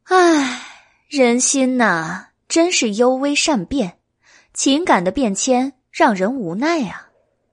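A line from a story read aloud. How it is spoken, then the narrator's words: Sighing. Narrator (Chinese): 白姬叹了一口气，说道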